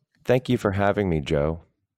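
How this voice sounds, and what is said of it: Robotic, plaintive, sad delivery. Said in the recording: “That was a little robotic, I gotta say. ... It was like a little plaintiff, almost like a little little urchin-y or something. ... sadness”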